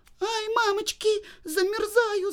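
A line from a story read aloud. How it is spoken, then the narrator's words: Screaming, then crying. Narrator (Russian): закричала и стала плакать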